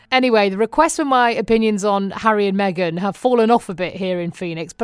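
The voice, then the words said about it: British accent, mistaken for Australian. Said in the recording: “can I just say I love your accent? ... what part of Australia are you from? ... I asked him if he was got mistaken for British”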